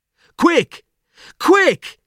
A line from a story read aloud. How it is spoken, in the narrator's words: he cried